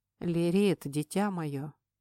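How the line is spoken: Hoarse call from darkness. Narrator (Russian): Хрипло позвал мой наставник из темной обители

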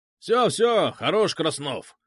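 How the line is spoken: Shout. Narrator (Russian): крикнул Краб

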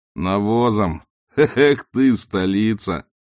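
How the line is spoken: Laughing. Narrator (Russian): Снова засмеялся Сильван

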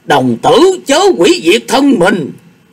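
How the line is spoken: Old man's alarmed shout. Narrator (Vietnamese): Bác đạo sĩ Nguyên bắt ngay được hành động của Quyết Lang đồng tử, lão đạo thét lên một tiếng

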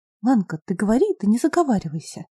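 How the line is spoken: Quiet. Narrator (Russian): тихо произнесла Осенева

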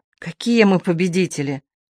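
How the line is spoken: Sighing. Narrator (Russian): Он вздохнул

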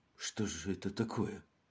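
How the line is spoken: Trembling whisper. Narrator (Russian): дрожащим голосом прошептал инспектор

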